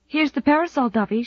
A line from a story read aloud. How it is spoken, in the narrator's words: she said breathlessly